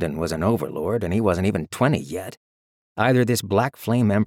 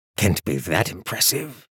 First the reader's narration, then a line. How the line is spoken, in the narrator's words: grumbled